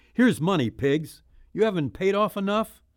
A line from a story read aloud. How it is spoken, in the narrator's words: shouting